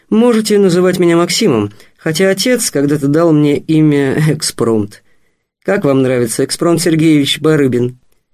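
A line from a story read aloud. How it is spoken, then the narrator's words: Laughing. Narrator (Russian): Вадим засмеялся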